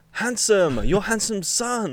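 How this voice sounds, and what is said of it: Slight put-on Chinese accent. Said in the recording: “slight Chinese accent”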